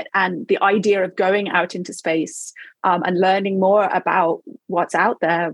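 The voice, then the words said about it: Non-American accent. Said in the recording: “You can hear from my accent, I didn't even grow up in America”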